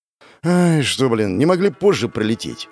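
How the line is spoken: Sighed. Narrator (Russian): Вздохнул я

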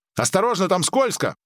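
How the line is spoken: Shouting. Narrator (Russian): крикнула Мария

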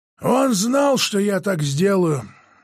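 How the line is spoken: Hoarse, faltering voice. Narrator (Russian): сказал деда Боря севшим голосом

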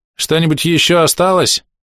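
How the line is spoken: Loud question. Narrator (Russian): громко спросила у нее толстозадая

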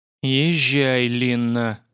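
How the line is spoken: Ordered through gritted teeth. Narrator (Russian): сквозь зубы приказал я

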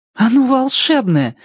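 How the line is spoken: Talking door exclaiming. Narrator (Russian): воскликнула дверь

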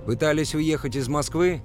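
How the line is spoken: Shouting. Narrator (Russian): выкрикнул я

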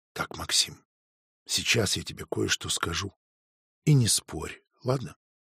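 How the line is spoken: Quiet. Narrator (Russian): тихо сказала

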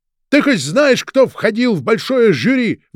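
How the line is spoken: Shouted out. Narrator (Russian): выкрикнул брат

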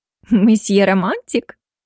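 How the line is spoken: Surprised, giggling. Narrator (Russian): словно удивившись, девушка, а после хихикнула

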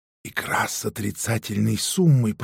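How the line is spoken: Whisper. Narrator (Russian): прошептала Дарина

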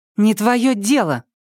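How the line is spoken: Snapping. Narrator (Russian): огрызнулась она

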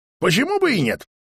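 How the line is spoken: Grandpa exclaiming. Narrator (Russian): воскликнул деда Боря

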